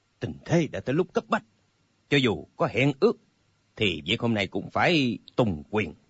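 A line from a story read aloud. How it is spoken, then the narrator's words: Cold. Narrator (Vietnamese): Âu Dương Phong lạnh lùng nói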